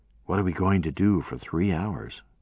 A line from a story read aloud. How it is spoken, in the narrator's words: whispering